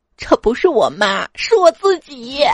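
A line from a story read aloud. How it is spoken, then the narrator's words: Choked with tears. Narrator (Chinese): 老王哽咽着跟我说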